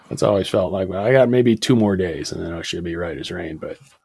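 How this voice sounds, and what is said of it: Choppy, sick-sounding voice. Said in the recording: “I'm a little under the weather, so don't give me any crap about how choppy my voice is ... Yeah, it's pretty bad ... when your voice starts really getting crap ... It's the cough”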